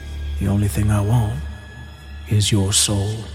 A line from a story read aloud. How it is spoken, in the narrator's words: in a deep voice from the cell next to him, the man said